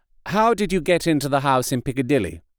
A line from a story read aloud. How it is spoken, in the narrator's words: I asked